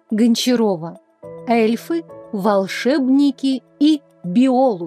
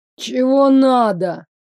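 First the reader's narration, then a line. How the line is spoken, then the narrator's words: Lazy question. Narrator (Russian): лениво поинтересовался он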